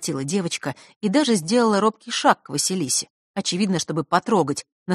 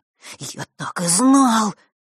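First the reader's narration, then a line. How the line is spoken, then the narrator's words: Breathed out, boy. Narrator (Russian): выдохнул мальчик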